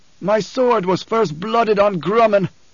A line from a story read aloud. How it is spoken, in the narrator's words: bellowed